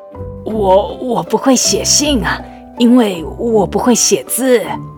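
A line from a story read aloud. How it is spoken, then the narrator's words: Shy, very quiet. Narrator (Chinese): 狮子有点害羞的小小声回答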